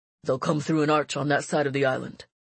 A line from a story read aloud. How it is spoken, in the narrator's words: said the fleet commander gruffly, his gray sideburns twitching with worry